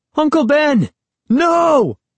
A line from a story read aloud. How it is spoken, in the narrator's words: I screamed